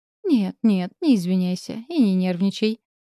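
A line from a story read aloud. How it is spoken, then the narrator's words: Ingratiating aunt. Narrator (Russian): заискивающим тоном проговорила тетя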